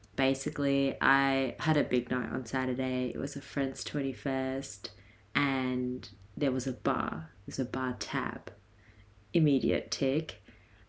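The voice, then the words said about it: Slightly raspy voice. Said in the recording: “My voice is a little bit raspy this week.”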